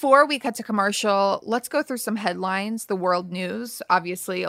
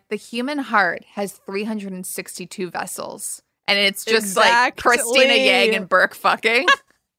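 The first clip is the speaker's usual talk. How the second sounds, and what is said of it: Impression of a TV show's narration. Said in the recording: “the best Grey's impression that I've ever heard in my life... did an impression of the whole show”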